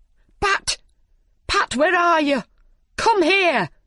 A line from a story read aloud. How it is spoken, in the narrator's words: shouted the rabbit